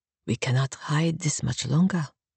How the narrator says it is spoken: Doctor whispered

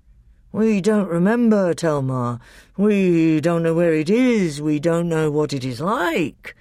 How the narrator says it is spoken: grumbled the Telmarines

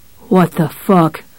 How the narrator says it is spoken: it muttered

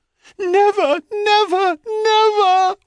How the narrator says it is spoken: wailed Echo

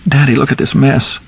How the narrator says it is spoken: Charlie groaned and began to cry

